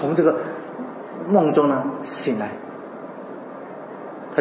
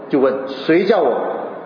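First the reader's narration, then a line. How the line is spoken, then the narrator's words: Plain. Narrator (Chinese): 他就说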